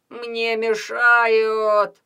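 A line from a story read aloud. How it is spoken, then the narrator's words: Fake moaning child. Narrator (Russian): начинал притворно стонать Петя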